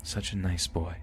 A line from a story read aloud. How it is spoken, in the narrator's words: whispered